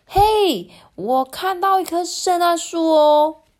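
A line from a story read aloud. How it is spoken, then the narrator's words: Announcing. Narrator (Chinese): 宣布说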